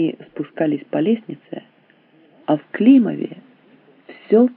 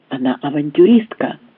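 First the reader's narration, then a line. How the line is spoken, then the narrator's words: Angry whisper. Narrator (Russian): злобно шептал Завитой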